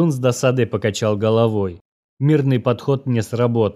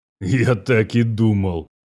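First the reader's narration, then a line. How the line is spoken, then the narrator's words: Snort, veteran soldier. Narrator (Russian): хмыкнул военный со стажем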